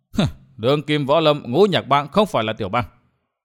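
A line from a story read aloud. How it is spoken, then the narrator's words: Startled, thin cold smile. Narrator (Vietnamese): Vân Thiên Nhạc hơi sửng sốt, đoạn cười nhạt nói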